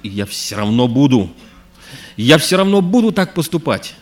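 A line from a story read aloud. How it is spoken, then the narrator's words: Shouting. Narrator (Russian): кричал на полу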